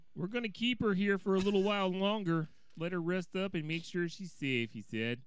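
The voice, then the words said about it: Exaggerated Minnesotan accent. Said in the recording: “It's almost like a northern Wisconsin accent you got there ... it's more Minnesota ... King of terrible Minnesotan accents”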